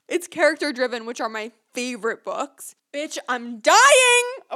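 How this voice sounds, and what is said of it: Yelling excitedly. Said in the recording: “I'm sorry I'm yelling.”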